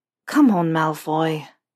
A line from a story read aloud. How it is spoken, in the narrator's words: Potter sighs